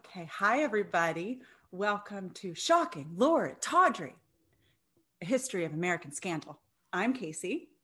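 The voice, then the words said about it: Professional newscaster voice. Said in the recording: “you just changed your voice into your professional newscaster voice.”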